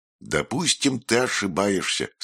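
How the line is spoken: Plain. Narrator (Russian): сказала логика

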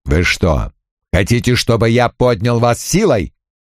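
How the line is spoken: Curt bark. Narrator (Russian): Крэмер отрывисто рявкнул

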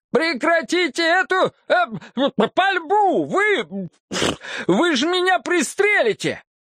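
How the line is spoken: Piercing, panicked scream. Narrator (Russian): его преподобие, задрав голову, пронзительно завопил

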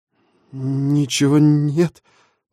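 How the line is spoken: Frightened stammer. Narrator (Russian): запинаясь от страха, выдавил из себя Денис

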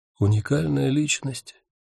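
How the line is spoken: Quiet. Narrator (Russian): тихо сказал Ник

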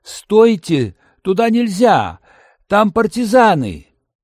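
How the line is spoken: Alarmed shouting. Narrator (Russian): закричал

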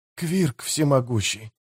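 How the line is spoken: Whispered. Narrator (Russian): прошептал Том

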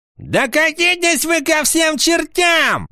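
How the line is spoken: Shouting. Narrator (Russian): закричал Теорион

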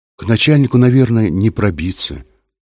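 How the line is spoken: Glum. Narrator (Russian): уныло сказал Юра

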